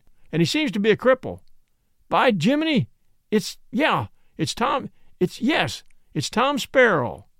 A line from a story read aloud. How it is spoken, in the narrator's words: shouted